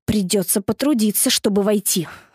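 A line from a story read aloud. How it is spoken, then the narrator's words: Irritated complaining. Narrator (Russian): раздраженно посетовал Дэви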